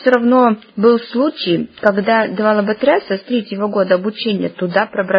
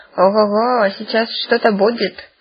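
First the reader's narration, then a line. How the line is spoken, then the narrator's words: Snorting. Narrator (Russian): фыркнула грабыня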